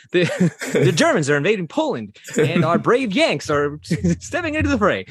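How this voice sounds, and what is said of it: Old-timey announcer voice. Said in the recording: “It's all going to be like an old-timey announcer voice.”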